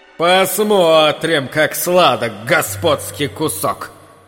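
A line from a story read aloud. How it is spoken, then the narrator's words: Coarse peasant guffawing. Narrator (Russian): хохотал уродливый грязный крестьянин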